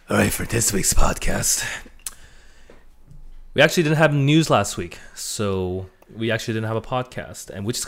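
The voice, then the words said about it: Hoarse, scratchy voice. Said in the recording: “scratchy voice ... My voice is very shot today because the Thai food I had is screwing up my throat”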